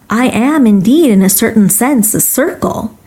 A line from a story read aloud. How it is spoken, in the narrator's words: replied